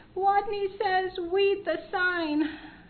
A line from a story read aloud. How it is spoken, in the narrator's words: tiny, trembling leader of the game, his head well inside his jacket, squeaked